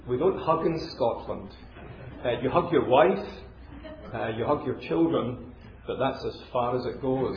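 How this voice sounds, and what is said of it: Educated Glasgow Scottish accent. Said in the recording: “my accent betrays me somewhat ... my accent's not Chinese. It's educated Glasgow”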